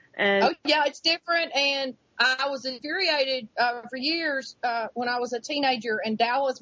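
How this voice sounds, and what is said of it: Pretty Southern American accent. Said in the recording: “You have a very pretty accent. I can sit here and listen to you talk.”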